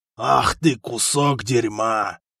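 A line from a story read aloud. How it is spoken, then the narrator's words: Growling. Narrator (Russian): прорычал хан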